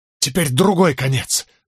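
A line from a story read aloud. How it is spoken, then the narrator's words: Breathless exhale. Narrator (Russian): выдохнул я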